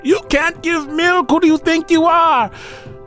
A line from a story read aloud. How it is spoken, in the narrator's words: They'd laugh and they'd shout